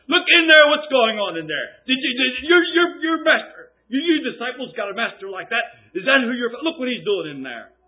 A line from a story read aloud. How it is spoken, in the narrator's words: the derision came, then when the people hollered in the epitaphs, hollering in the window